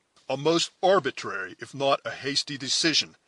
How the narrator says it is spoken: exclaimed Hayward, undecided whether to give vent to his growing anger or to laugh in the other's face

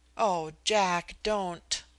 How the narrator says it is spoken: I moaned, and then, to my horror, I began to cry

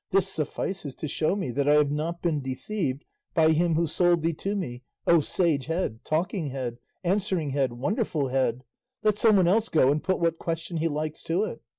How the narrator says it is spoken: Don Antonio exclaimed

